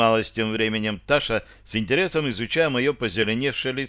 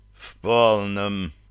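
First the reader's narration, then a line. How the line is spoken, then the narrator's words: Moaning. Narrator (Russian): простонал я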